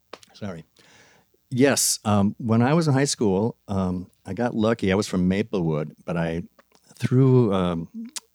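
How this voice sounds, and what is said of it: Hoarse, fading voice. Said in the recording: “I'm losing my voice here a little bit. I'm going to cough for a second.”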